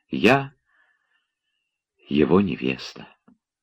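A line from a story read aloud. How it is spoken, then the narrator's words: Tender whisper. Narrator (Russian): еще раз, без трепета гордости и только с глубоким умилением прошептала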